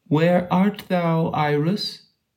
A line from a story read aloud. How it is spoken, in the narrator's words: cried the voice